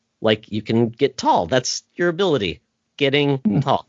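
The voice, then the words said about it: Sarcastic delivery. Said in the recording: “Am I being sarcastic enough?”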